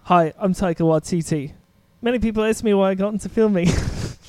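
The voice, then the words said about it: Imitated New Zealand accent. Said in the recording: “That's very good, actually... my favorite accent ever is New Zealand”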